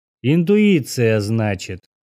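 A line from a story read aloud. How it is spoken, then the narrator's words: Drawl. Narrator (Russian): протянул он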